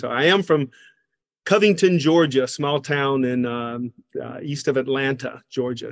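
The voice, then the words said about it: Southern American accent. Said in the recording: “my Southern accent that I talk funny ... I have an accent that no one claims”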